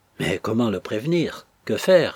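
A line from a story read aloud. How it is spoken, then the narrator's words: Exclaiming. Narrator (French): s'écria Henriette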